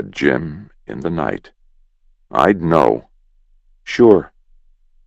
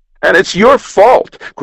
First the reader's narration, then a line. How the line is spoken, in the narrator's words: cried Jim